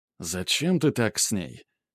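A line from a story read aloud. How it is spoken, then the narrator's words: Bullfinch asking quietly. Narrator (Russian): тихо спросил снегирь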